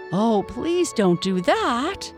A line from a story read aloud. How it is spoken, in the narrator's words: cried both of the girls, very worried